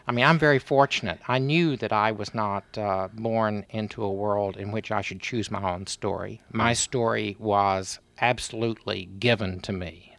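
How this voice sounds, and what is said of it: Texan accent. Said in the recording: “I'm a Texan ... I never would have guessed from that accent”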